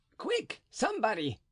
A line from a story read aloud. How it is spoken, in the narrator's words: cried Planchet